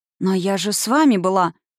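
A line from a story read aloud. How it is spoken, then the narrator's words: Confused mumble. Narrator (Russian): растерянно промямлила я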